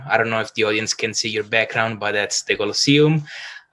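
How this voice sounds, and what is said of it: Italian accent from Rome. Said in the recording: “probably from my accent, you can hear that I am originally from Rome”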